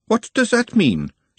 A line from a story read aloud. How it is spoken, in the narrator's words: said Glenda sharply, always on the lookout for dangerous words